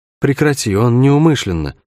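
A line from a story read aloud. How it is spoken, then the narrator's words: Tired request. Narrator (Russian): устало попросила Шерн откуда-то сбоку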